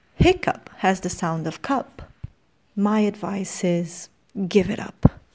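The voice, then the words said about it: British English accent. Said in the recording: “the full poem, in British English accent.”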